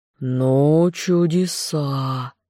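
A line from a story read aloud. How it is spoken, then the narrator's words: Surprised drawl. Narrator (Russian): Марун протянул удивленно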